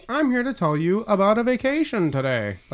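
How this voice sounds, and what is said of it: Weird sing-song sales inflection. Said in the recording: “that weird inflectionary voice”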